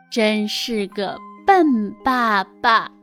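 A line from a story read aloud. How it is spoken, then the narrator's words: Slow. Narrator (Chinese): 冷翠缓缓地说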